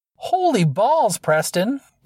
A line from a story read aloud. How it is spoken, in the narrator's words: Dee exclaimed, smiling